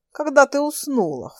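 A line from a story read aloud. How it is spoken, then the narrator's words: Snorted. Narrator (Russian): фыркнул Андрей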